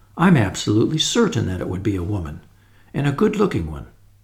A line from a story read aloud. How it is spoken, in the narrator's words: replied Tuppence calmly